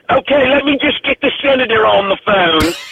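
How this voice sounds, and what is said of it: Put-on English accent. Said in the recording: “my dumb English accent”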